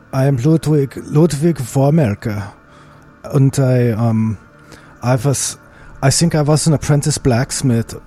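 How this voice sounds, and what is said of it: Exaggerated put-on accent. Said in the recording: “as I often am when I adopt this outrageous accent.”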